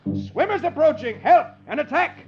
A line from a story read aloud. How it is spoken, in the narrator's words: An enemy sentry, seeing the wine jugs bobbing in the water, thinks it's a head of soldiers wearing helmets, and he yells